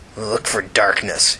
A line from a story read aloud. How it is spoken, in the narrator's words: he grumbled angrily